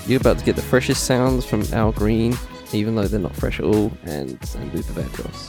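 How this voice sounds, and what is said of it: Sore, rough-throated voice. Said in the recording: “I've got a fucking throat infection. Can you not hear me, bro?”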